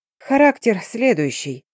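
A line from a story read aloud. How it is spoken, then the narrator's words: Calm. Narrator (Russian): спокойно проговорила Агнес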